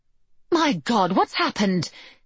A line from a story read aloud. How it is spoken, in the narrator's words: cried Mrs